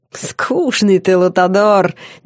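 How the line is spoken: Demonic guffaw. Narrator (Russian): демон захохотал

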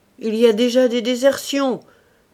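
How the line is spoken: Menacing shout. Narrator (French): crie-t-il d'une voix menaçante

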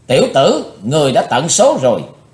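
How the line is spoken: Angry loud shout. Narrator (Vietnamese): Bát Độc Lão Ma giận dữ quát lớn

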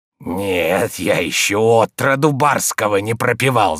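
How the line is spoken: Hoarse wheeze. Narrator (Russian): захрипел Захар

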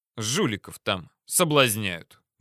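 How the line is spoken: Angry. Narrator (Russian): добавил зло

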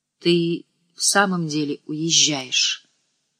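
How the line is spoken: Quiet question. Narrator (Russian): тихо спросила

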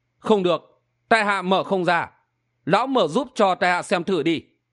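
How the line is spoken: Smiling. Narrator (Vietnamese): Hầu Xuân Phong mỉm cười nói

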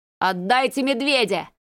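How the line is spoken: Yelling. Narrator (Russian): заорал он

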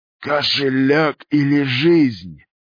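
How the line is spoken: Hoarse sinister wheeze close by. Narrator (Russian): Хриплый, зловещий голос сипел прямо над ухом

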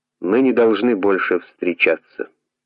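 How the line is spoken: Calm. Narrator (Russian): Десер спокойно сказал

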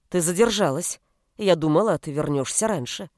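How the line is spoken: Angry. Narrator (Russian): сказала Наоми сердито

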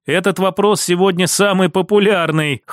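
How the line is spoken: Wry snort. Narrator (Russian): хмыкнул я

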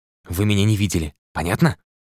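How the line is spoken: Mumbled while walking. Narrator (Russian): Пробормотал на ходу

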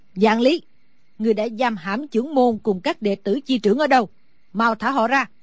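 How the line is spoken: Old woman's loud shout. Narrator (Vietnamese): Sử bà bà lớn tiếng hét

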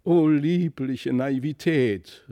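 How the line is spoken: Stout lady calling out. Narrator (German): rief die dicke Dame

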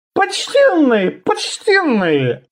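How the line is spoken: Conciliatory squeak. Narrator (Russian): примирительно пискнул Ши

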